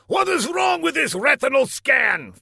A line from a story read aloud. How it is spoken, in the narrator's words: thundered Laszlo